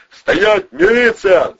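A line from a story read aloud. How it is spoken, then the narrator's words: Yelling from the bushes. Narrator (Russian): заорали из кустов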